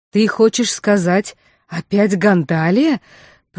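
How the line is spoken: Numb-tongued mumbling. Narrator (Russian): промямлила, с трудом ворочая одеревеневшим языком

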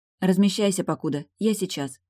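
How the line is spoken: Plain. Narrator (Russian): сказала девочке

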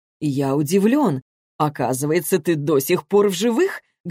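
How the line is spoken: Plain. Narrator (Russian): говорит он

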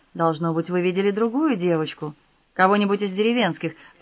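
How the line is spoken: Calm sympathetic doctorly tone. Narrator (Russian): предположил он, стараясь говорить спокойно, участливым докторским тоном

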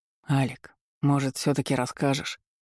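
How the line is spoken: Barely audible. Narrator (Russian): Макс прищурился, еле слышно добавив

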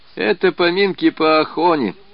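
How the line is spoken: Laughing. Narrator (Russian): смеялся Брехун

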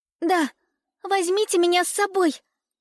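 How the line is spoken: Exclamation. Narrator (Russian): воскликнула Элиза

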